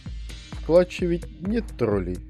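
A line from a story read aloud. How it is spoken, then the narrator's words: Plain. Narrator (Russian): спросил он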